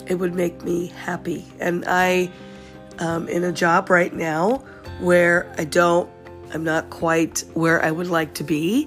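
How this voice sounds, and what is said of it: Sick, congested-sounding voice. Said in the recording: “I have a little bit of a cold. I apologize for my voice.”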